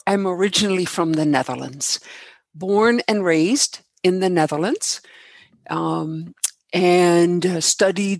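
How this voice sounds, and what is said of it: Slight foreign accent. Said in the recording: “I detected a bit of an accent ... It's beautiful”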